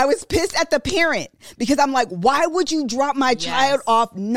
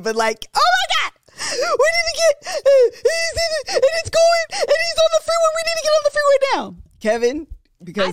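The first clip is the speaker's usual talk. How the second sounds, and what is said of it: Yelling in a panic. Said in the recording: “Sorry if I'm yelling”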